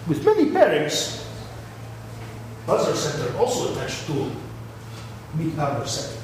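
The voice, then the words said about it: Put-on foreign accent. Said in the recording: “I can't do accent anymore”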